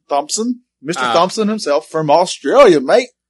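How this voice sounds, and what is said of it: Bad put-on Australian accent. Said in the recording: “Did you like that in accent? ... That wasn't good. No. That's as bad as your monkey.”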